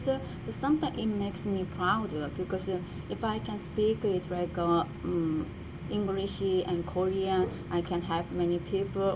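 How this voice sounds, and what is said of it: Korean accent in English. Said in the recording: “when I even I speak English, there is my Korean accent ... Some people can recognize it without introduced by myself, because of my accent”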